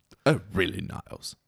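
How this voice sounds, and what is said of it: Frasier impression. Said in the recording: “do a Frasier impression. Who's your best Frasier impression? ... Oh, that was pretty good.”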